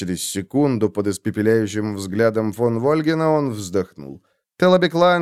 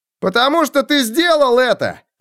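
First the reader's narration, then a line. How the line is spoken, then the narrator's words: Shout from crowd. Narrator (Russian): крикнул кто-то в толпе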